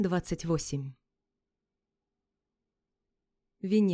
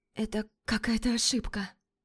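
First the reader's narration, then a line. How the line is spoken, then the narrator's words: Hoarse croak. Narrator (Russian): Хриплю я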